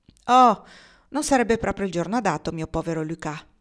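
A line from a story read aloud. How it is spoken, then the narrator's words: Sighing. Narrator (Italian): sospirò Nicole Victoria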